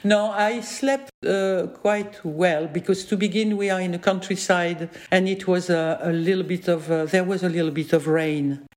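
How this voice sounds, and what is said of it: French-accented English. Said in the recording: “I'm French ... I never find the possibility to speak uh, with a real English accent, as you can hear. So that's my accent.”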